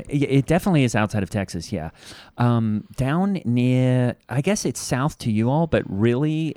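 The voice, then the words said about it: Australian accent. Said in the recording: “Your voice sounds weird ... I'm from Australia”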